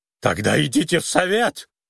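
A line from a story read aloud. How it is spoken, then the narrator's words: Hysterical shriek. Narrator (Russian): истерично взвизгнул Финджи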